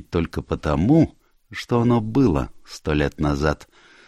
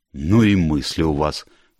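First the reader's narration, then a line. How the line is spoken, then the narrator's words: Exclaiming. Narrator (Russian): воскликнула миссис Оливер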